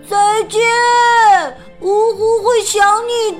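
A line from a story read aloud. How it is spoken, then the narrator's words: Calling out. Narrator (Chinese): 呜呼也喊道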